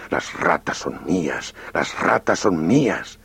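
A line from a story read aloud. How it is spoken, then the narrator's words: Snarling fighting dogs. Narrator (Spanish): Los perros peleaban aviesamente, sin cesar de gruñir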